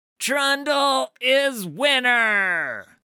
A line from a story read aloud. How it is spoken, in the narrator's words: shouted the clever little troll